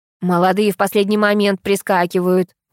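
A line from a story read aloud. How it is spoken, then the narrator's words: Creaky voice. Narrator (Russian): проскрипела вторая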